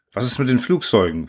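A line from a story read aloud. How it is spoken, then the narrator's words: Plain question. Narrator (German): fragte Rohan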